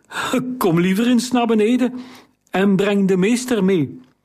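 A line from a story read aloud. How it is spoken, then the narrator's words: Calling, unsteady voice. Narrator (Dutch): riep hij met onvaste stem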